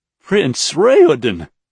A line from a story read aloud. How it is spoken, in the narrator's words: he choked